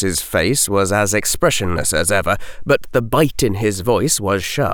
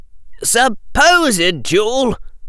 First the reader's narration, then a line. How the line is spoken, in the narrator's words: Harry said sharply